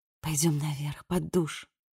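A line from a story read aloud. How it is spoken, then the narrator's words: Whispered. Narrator (Russian): Элли шепнула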